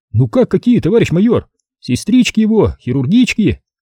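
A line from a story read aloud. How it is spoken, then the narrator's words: Cheerful. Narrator (Russian): весело проговорил он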